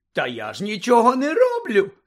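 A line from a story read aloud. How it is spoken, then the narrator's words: Giggling. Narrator (Ukrainian): захихотів Півз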